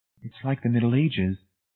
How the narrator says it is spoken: Marcia said quietly

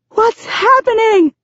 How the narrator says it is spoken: I scream over the gale force winds

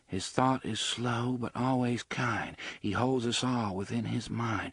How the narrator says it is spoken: Susanna murmured

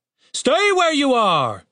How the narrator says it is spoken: shouted the captain

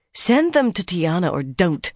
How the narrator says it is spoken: Mirella snapped

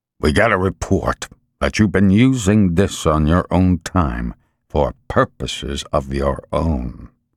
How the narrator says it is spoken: he said to Al, his voice low and gravelly

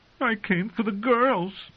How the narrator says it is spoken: he whimpered

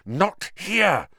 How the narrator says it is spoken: Harry hissed

